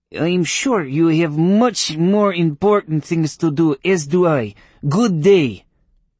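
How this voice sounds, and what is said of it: Chilly voice, stronger accent. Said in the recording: “Her voice grew chilly, and her accent became more pronounced.”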